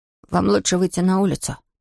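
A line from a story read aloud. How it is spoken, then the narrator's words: Whisper. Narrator (Russian): прошептал Том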